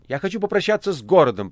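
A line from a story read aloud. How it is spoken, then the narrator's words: Shouting. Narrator (Russian): прокричал мастер Азазелла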